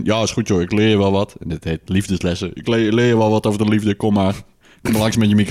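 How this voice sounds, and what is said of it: Tough macho man accent. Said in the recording (Dutch): “dat vond ik wel een goed accent dit ... Het was een beetje een stoere mannen accent.”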